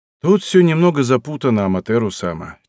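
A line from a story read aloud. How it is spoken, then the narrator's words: Slight sigh. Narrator (Russian): чуть вздохнул он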